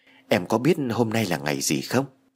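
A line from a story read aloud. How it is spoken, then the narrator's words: Whisper in ear. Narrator (Vietnamese): Tony Phương thì thầm bên tai của Mỹ Lan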